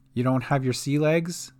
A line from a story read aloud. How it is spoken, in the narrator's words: she said